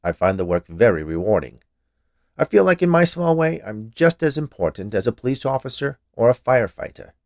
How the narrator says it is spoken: said, in a somewhat defensive tone

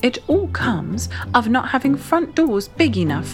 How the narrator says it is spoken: said Winnie crossly

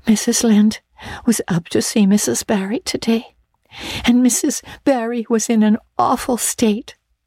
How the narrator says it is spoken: she wailed

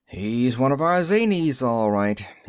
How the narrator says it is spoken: he said sadly

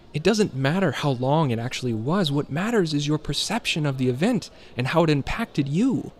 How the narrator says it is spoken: Julian exclaimed, as if he has said this dozens of times

